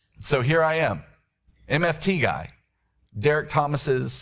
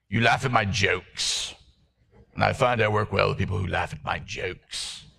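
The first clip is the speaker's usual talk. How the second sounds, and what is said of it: Impression of Derek Thomas. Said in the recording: “doing a Derek Thomas impression.”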